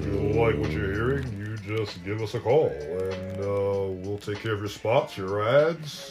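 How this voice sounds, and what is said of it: Radio announcer voice. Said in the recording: “We both have the radio voice.”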